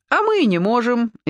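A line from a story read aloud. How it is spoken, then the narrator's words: Cheerful girls answering. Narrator (Russian): весело ответили девицы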